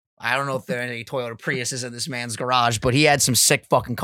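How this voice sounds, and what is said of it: Usual voice. Nothing is said of it.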